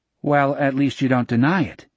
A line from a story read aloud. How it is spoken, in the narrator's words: Jack said